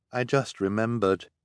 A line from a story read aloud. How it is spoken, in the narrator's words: he said in a quiet, sad voice